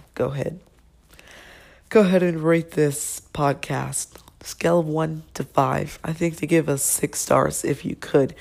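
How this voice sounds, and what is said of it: Sick, poor-sounding voice. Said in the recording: “I am sick... I sound terrible.”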